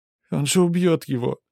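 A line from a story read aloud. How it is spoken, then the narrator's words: Sobbed. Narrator (Russian): всхлипнула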